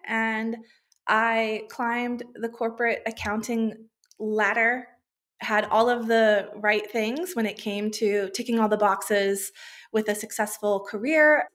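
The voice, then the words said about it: American accent. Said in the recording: “I grew up in the USA, which, if my accent hadn't given it away yet”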